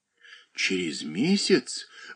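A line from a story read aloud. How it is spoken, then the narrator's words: Exclaimed. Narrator (Russian): воскликнула Катерина Александровна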